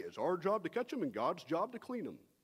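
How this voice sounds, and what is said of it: Put-on East Texas accent. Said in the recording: “That is my best impression of your East Texas.”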